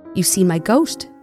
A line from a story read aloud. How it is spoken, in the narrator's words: she exclaimed